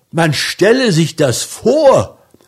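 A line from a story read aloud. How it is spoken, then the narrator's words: Man shouting, very upset. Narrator (German): rief er, sehr aufgebracht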